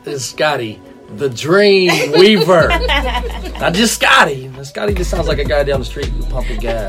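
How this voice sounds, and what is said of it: Good radio voice. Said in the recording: “You got a good radio voice.”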